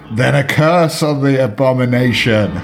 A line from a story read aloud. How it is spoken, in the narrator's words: screamed Eldritch